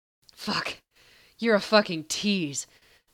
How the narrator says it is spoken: Sam growled

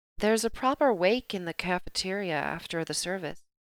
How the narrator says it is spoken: Darcy murmured on impulse

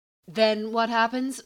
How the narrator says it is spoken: Mercy asked nervously

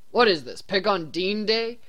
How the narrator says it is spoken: Dean grumbled, clearly done with the conversation

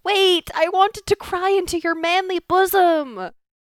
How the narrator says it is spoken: she yelled

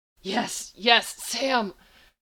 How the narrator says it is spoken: Gabriel gasped

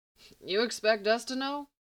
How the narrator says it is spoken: Mustache guy asked with a laugh

